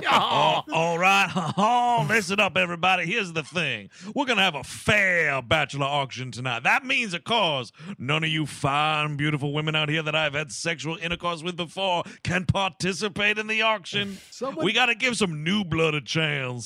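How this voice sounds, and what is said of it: Exaggerated Southern accent, cartoon-rooster voice. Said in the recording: “that accent ... why does he sound like a cartoon rooster?”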